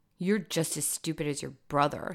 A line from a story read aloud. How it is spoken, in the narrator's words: Skylar snorted